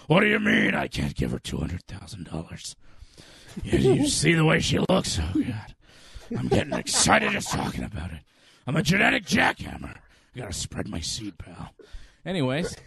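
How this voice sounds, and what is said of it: Vince McMahon impression. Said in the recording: “my Vince impression”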